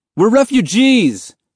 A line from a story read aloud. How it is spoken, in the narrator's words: Mahmoud yelled, unable to stay silent any longer